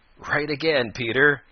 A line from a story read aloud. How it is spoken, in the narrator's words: laughed Old Mother Nature